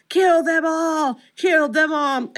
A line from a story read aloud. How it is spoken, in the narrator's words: Chucky's head screaming